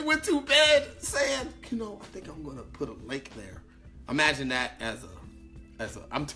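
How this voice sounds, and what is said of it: Usual voice. Nothing is said of it.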